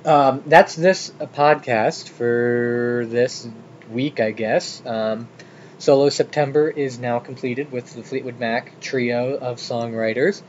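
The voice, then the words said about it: Hoarse, froggy voice. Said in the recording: “My voice is getting a little froggy there.”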